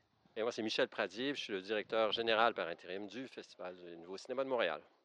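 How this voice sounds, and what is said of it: Slight Québécois French accent. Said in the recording (French): “des gens qui ont un petit accent. Vous avez un accent, hein? ... À peine. Petit accent du Québec”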